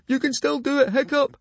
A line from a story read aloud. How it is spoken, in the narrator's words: he shouted